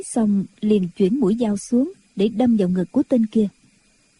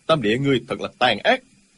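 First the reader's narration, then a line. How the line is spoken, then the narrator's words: Shouted angrily. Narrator (Vietnamese): Diêu Thanh Tuyền quát lên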